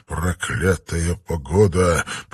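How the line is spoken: Absent-minded grumble. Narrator (Russian): проворчал он, думая о другом

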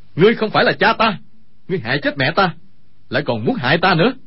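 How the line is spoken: Furious shout. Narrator (Vietnamese): Dương Khang quát

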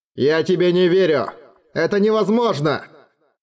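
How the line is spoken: Shout. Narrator (Russian): нахмурился, крикнул Эрагону

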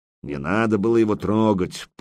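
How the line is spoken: Grumbling. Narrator (Russian): проворчал Яруш

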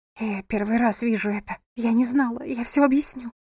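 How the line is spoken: Quick whisper. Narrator (Russian): быстро прошептала она

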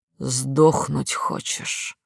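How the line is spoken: Hissed in face. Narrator (Russian): зашипел в лицо

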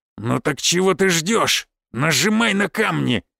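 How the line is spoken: Growled. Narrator (Russian): прорычал Аракчеев

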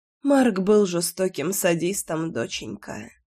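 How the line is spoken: Whispering mother. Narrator (Russian): прошептала мама

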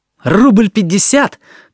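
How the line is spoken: Shout. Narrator (Russian): крикнул Алёшка Смирняков

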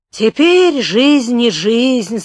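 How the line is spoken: Sighing innkeeper. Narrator (Russian): сказал корчмарь и вздохнул

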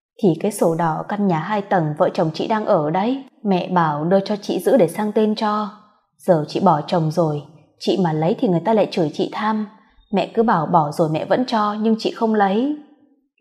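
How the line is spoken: Sighing. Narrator (Vietnamese): Cô thở dài kể tiếp

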